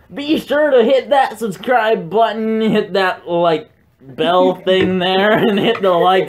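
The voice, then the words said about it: Imitates a generic YouTuber voice. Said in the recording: “I'm gonna impersonate every YouTuber ever except us.”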